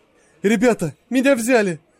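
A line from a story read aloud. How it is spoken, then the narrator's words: Joyful announcement. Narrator (Russian): радостно сообщил он коллегам в очереди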